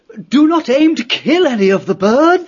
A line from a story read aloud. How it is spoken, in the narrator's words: the abbot cried